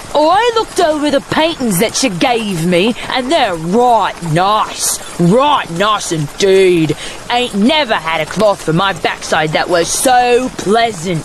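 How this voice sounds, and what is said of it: Exaggerated rough Bav accent. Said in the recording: “call that a bad accent? ... You sounded like you had rocks in your mouth. That's how they sound. ... You're exaggerating that. ... a Bav accent”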